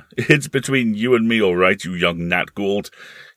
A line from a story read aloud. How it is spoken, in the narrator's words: he said, laughing